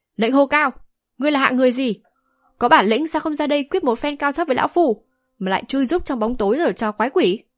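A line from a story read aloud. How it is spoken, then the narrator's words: Angry old man shouting. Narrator (Vietnamese): lão giận dữ hét to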